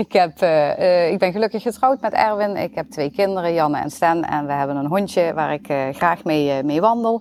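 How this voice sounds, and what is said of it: Limburg Dutch regional accent. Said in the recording (Dutch): “Dat zullen jullie vast horen aan mijn Limburgs accent.”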